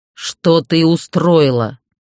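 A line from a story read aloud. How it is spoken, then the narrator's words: Growled. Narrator (Russian): прорычал он впервые за весь вечер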